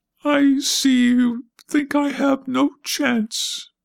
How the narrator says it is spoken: Brownie said falteringly

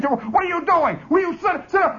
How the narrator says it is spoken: he bellows like that

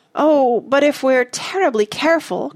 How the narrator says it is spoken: cried Joe

